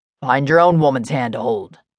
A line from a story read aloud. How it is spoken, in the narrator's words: Micah Hudson growled